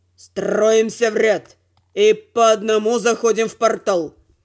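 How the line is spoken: Gloomy mutter. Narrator (Russian): мрачно буркнув

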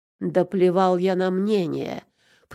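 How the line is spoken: Growling. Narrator (Russian): прорычал Боярцев

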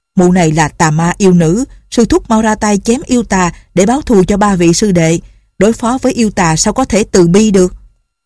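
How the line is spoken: Angry. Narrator (Vietnamese): Tân Quốc Lương tức giận nói

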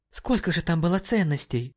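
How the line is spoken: Gasp. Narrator (Russian): ахнула Мэри Джейн

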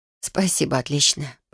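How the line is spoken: Hoarse sleepy mumble. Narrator (Russian): пробормотала хриплым ото сна, но своим собственным голосом

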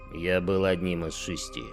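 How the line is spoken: Grumbling. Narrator (Russian): проворчал тот в ответ

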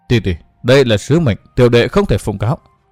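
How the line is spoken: Apologetic. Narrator (Vietnamese): Văn Thiên Hào tỏ vẻ áy náy, nói

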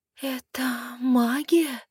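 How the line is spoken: Astonished breathy exhale. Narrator (Russian): пораженно выдохнула

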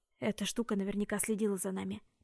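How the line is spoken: Whisper. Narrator (Russian): прошептал Джем

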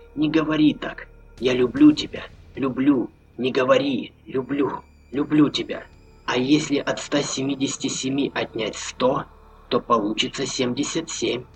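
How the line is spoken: Hot, close whisper. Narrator (Russian): прошептала Маша, обжигая горячим дыханием щеку Роберта

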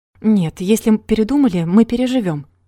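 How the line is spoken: Wry snort. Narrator (Russian): хмыкнул Рогов

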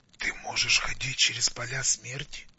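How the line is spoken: Dry-lipped whisper. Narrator (Russian): прошептал, разлепив пересохшие губы

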